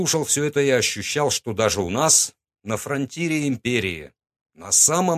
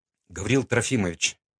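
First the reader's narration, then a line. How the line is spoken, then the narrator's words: Quiet. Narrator (Russian): сказал тихо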